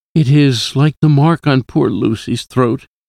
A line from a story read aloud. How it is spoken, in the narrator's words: I said sadly